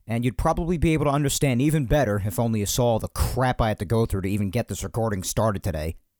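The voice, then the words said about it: Raspy, strained voice. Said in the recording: “sorry about my voice being raspy, too. I hate doing the show with a raspy voice ... not having their voice at full capacity ... especially when I put my voice at like a higher inflection, you could hear the strain”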